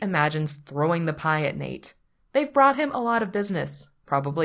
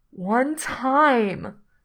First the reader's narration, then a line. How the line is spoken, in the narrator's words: says, his voice muffled